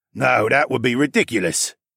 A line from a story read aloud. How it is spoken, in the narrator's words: Thass grunted